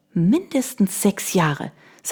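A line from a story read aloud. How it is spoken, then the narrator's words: Plain. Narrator (German): sagte sie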